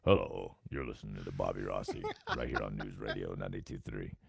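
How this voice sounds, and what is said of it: Deep radio announcer voice, like Optimus Prime. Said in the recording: “That's my radio voice. ... that sounds too much like Optimus Prime.”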